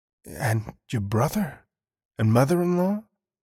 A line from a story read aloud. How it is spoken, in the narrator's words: the horrified inspector whispered, afraid to ask